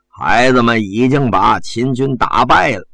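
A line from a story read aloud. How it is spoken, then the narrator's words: Slow and unhurried. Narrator (Chinese): 谢安慢吞吞地说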